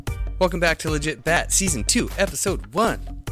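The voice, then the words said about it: Exaggerated radio announcer voice. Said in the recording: “Said in the most radio voice ever.”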